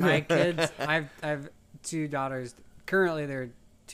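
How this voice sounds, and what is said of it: Usual voice. Nothing is said of it.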